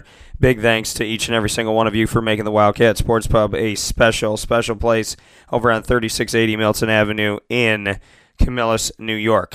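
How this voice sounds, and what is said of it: Hoarse, strained voice. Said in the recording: “My throat, as you know, I lost my voice last week ... my throat is definitely taking a beating this morning ... allergies, and losing my voice”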